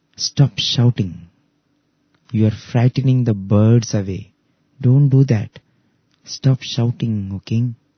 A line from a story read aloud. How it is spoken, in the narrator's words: the sage quietly he said